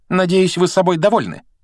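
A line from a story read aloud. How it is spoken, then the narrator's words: Sharp. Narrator (Russian): резко произнесла она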